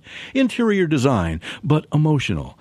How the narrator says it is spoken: She turned towards him calmly and said

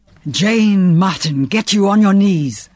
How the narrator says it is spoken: The voice was a roar

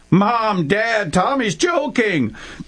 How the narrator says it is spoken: the big sister exclaimed

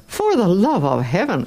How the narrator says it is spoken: exclaimed Don Camillo

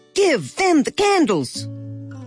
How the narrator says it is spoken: Boomer barked several sharp, commanding barks in a row that seemed to say

